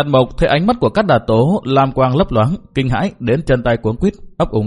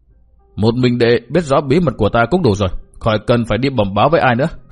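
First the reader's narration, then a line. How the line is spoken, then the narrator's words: Cold, dismissive laugh. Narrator (Vietnamese): Cát Đạt Tố cười nhạt nói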